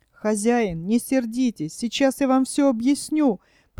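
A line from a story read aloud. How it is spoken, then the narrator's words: Dog's squeal. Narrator (Russian): провизжала собака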